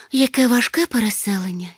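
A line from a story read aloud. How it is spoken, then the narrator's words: Sighing. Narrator (Ukrainian): зітхнула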